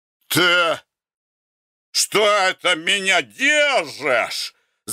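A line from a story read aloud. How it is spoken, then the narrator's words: Agitated shout. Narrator (Russian): закричал Гордей Евстратыч, едва удерживаясь на месте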